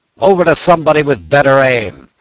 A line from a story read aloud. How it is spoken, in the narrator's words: the commander shouted